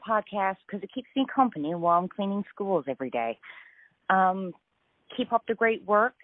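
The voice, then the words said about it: Cheery Newfoundland accent. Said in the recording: “That accent alone makes me need to go there ... Isn't it a cheery accent?”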